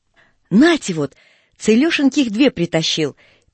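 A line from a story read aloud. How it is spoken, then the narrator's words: Joyful interruption. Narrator (Russian): перебивает радостно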